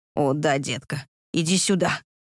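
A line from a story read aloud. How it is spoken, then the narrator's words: Husky whisper. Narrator (Russian): хрипло прошептал он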